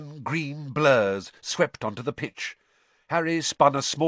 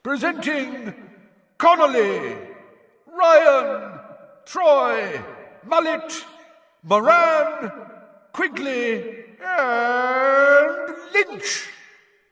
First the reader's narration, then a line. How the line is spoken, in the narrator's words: yelled Bagman